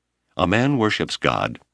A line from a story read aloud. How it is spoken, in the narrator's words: Abner said